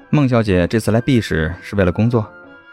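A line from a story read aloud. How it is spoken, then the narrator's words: Calm, thoughtful. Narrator (Chinese): 谢景亭若有所思，淡淡的开口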